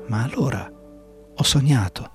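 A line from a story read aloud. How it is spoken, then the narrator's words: Serene murmur. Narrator (Italian): mormorò Alice, e sentendosi serena e leggera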